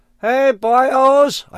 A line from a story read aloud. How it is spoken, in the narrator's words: I screamed